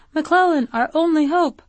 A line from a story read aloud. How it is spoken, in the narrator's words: failed and only sputtered as helplessly as the candidate